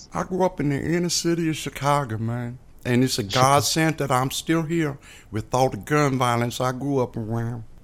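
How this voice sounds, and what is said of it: Noticeable regional accent. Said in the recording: “I'm trying to place that accent of yours.”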